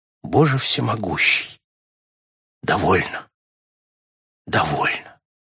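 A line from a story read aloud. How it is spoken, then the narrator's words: Quiet. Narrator (Russian): он тихо проговорил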